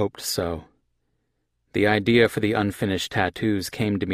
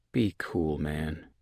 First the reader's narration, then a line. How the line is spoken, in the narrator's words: I said to Edgar in a low voice